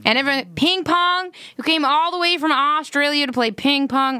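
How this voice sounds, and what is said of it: Good American accent imitation. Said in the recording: “You do a good American accent. I'm impressed.”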